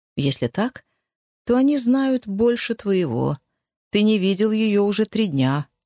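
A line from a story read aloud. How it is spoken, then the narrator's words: Very calm. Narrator (Russian): очень спокойно ответил Колм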